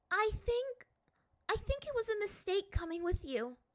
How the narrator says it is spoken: she said, her voice quavering

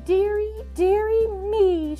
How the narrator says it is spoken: she cried

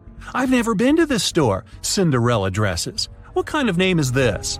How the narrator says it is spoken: A woman in a purple dress exclaimed

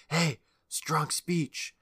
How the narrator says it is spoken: the kids behind her whispers

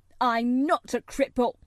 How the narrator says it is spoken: he cried up furiously

